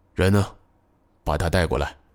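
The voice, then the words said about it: Quiet, low-voiced question. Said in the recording (Chinese): “小声问道”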